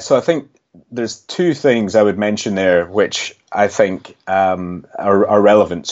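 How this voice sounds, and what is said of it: Scottish accent. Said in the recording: “you might be able to tell from my accent, I'm actually from Scotland”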